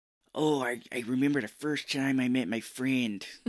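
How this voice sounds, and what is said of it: Bad put-on Chicago accent. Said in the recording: “it's a bad Chicago accent.”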